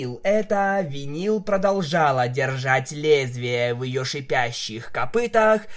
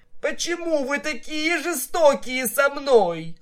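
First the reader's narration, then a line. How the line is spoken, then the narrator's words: Whimpering. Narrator (Russian): он вновь захныкал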